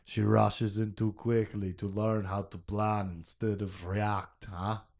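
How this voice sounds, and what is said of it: Put-on Russian accent. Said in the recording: “Let's try a Russian accent again ... That was way better. What dialect or region of Russia that was, but the sounds that came out of my face were consistent.”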